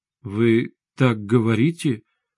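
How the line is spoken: Uncertain. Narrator (Russian): неуверенно произнесла Светлана

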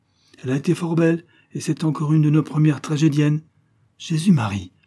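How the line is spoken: Scandalized widow's exclamation. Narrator (French): s'écria l'honnête veuve scandalisée

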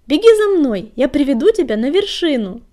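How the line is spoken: Cheerful shout. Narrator (Russian): весело крикнула она

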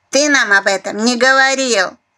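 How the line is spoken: Cantankerous grumble. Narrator (Russian): Сварливо проворчала Алёнушка

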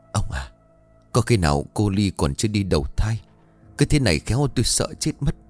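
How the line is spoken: Trembling frightened woman. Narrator (Vietnamese): Bà run rẩy

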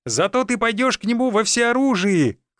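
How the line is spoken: Shouted after someone. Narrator (Russian): крикнул мне в спину друг

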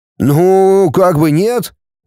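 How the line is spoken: Uncertain young man. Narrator (Russian): неуверенно ответил паренек

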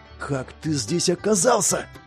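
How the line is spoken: Hissed. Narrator (Russian): прошипел Дирк

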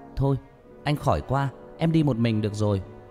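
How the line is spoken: Shouted. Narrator (Vietnamese): Hét

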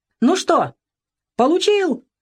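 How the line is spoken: Strained, unnatural shout. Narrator (Russian): не своим голосом прокричал Веня

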